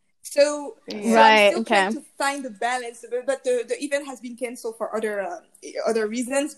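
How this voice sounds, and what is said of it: Speaks with a distinct accent. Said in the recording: “this accent is so sexy”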